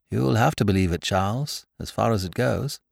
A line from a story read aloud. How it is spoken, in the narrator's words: said his friend softly